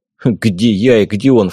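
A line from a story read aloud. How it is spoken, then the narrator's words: Snorting. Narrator (Russian): фыркнул я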